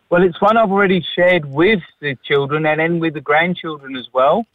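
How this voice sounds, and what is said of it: British accent. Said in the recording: “you do sound like you've got a better British accent than Bert did”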